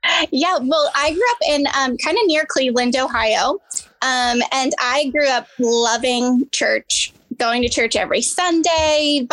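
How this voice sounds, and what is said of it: Slight Midwestern American accent. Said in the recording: “I thought I sensed a little bit of a Midwestern accent there.”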